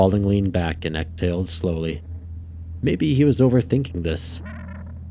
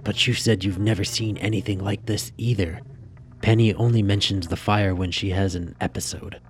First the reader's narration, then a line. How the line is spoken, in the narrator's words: Spaulding leaned in and whispered